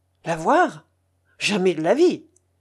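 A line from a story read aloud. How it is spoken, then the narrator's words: Exclaiming. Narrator (French): s'écria Pulcheria Alexandrovna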